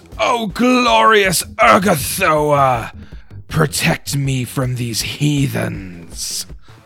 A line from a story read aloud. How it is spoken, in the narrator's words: she shouts